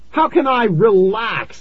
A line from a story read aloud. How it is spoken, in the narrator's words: I screamed